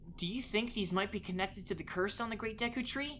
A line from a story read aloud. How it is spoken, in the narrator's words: he asked